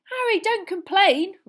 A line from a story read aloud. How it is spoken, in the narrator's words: Ron yelled excitedly